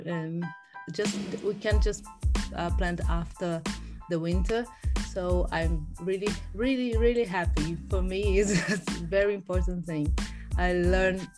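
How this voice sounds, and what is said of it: Brazilian-accented English. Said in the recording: “accent is so beautiful ... I have a Brazilian accent”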